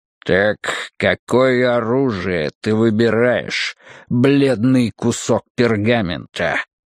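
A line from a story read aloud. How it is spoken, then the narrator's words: Growling. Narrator (Russian): прорычал Магнус Гара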